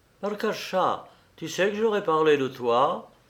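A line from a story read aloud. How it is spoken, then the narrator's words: Sudden recollecting exclamation. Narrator (French): s'écria-t-il, comme s'il s'était rappelé soudain quelque chose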